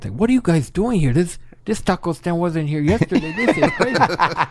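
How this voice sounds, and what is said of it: Luis Guzman impression, Los Angeles lisp. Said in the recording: “Luis Guzman ... he has a lisp ... he's got a Los Angeles lisp accent.”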